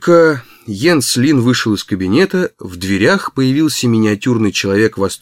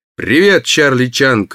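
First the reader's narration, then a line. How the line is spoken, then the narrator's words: Barked. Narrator (Russian): рявкнул Барни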